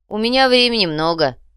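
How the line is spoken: Grumble. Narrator (Russian): проворчал Артем

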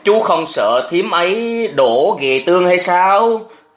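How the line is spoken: Laughing loudly, asking. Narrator (Vietnamese): Nhà vua cười to hơn hỏi thêm

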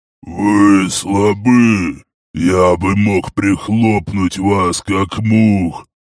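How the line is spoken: Monstrous growl. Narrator (Russian): прорычало чудовище

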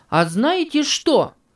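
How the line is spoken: Exclaiming. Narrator (Russian): воскликнул Энди

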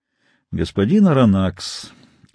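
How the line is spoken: Calm reply. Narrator (Russian): спокойно ответил капитан Немо

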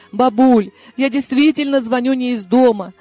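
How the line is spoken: Unenthusiastic squeak. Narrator (Russian): без вдохновения пискнула я

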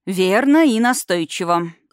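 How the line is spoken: Envious breathy exhale. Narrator (Russian): с затаенной завистью выдохнула Рами

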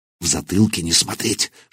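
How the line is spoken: Whisper. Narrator (Russian): шепнул он

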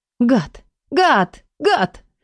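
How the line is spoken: Muffled sob. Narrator (Russian): Я всхлипнула, закусив палец до боли

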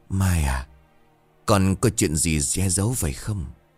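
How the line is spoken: Old servant's soft question. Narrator (Vietnamese): một người hầu già khẽ hỏi

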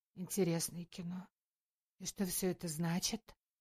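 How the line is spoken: Quiet question. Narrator (Russian): тихо спросила Таня

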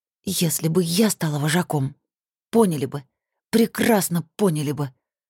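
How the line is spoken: Through gritted teeth. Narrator (Russian): процедила сквозь зубы

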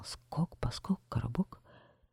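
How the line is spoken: Whispered. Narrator (Russian): прошептал

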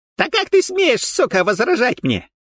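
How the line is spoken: Shrieking. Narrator (Russian): завизжал Гоша

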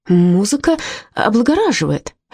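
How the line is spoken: Uncertain. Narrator (Russian): неуверенно промолвила я

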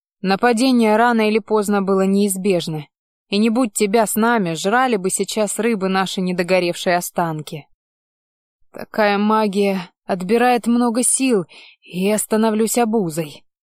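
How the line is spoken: Grumbling mage. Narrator (Russian): проворчал напоследок маг

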